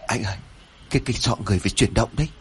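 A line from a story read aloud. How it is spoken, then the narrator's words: Frightened stammering. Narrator (Vietnamese): Lễ run rẩy ấp úng nói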